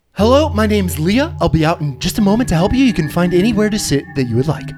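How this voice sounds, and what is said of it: Put-on character voice. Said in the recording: “What happened with your voice just there? ... I decided to change it.”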